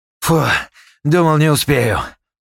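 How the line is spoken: Breathless exhale. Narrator (Russian): выдохнул

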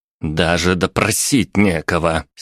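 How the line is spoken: Angry exclamation. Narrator (Russian): сердито воскликнула

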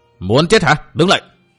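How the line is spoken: Barking shout. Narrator (Vietnamese): Một trong hai võ sĩ áo xanh quát

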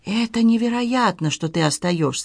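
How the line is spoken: Whispered. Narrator (Russian): прошептал Хуан

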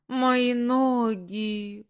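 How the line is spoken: Moaning. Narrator (Russian): простонала Оксана

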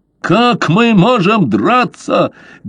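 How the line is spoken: Angry yelling. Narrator (Russian): гневно заорал Огл

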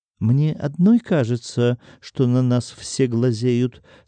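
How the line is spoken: Plain. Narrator (Russian): спросила спутника Оксана

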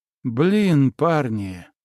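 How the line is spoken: Exhaled exclamation. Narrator (Russian): выдохнул я

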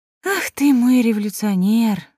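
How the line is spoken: Sighing queen. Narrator (Russian): вздохнула королева

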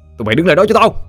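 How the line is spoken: Shouting. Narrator (Vietnamese): Anh quát lên

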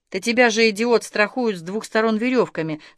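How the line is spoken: Calm speech. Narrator (Russian): сказал спокойно Павел

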